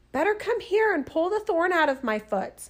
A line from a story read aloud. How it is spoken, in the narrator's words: the fox cried